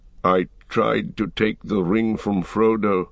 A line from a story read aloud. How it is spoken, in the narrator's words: said